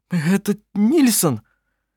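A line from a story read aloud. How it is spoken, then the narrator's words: Trembling voice. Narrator (Russian): дрожащим голосом произнес он, обращаясь к Кларе и Анне Марии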